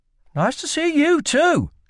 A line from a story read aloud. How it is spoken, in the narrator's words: snapped